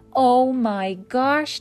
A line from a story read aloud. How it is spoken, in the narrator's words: Josh yelled